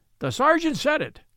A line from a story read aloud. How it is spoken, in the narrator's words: cried Betteredge